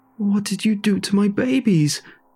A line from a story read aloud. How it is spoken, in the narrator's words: she screamed